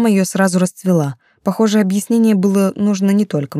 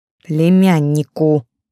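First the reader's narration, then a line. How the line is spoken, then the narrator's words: Correction through gritted teeth. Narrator (Russian): сквозь зубы поправила Настя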